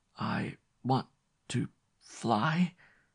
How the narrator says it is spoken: gasped the invalid

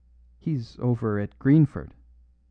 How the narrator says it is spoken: faltered the curate

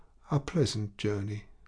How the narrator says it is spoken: Homais in a voice broken by sobs uttered these three sad words

